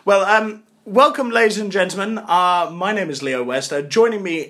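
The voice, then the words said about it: Put-on posher voice. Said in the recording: “putting on a posher voice than usual”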